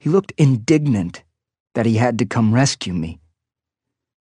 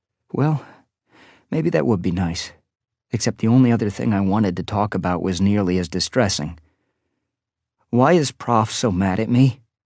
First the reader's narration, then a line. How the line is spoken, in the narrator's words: asked softly